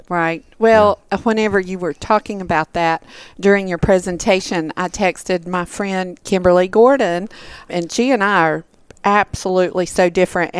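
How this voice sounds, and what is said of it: Southern American accent. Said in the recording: “a Southern girl, Southern accent.”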